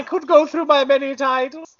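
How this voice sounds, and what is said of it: Aged, ambiguous regal character voice. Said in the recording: “can't tell if you sound like a really old man or a really old woman ... I was going for Mad Boy, Mad Boy King”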